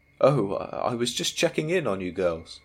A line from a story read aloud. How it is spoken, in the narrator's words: he replied, his smile never faltering